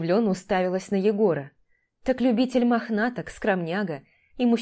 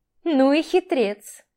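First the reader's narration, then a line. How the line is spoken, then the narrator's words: Laughing. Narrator (Russian): Маша рассмеялась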